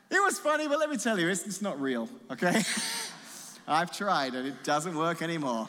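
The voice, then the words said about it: British accent. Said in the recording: “Mrs. Jane has got over this accent ... my kids were all born here in America, so as they've grown up, they haven't had British accents”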